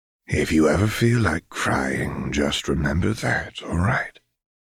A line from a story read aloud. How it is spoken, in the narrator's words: Silco said softly